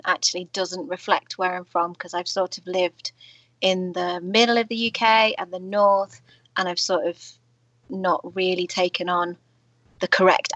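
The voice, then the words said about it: British English accent. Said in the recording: “those are some cool accents ... I am from, the UK. I'm from the south of Manchester”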